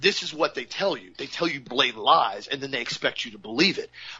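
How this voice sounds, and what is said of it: Usual voice. Nothing is said of it.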